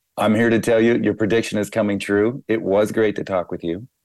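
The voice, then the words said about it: Strained, failing voice. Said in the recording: “I am losing my voice”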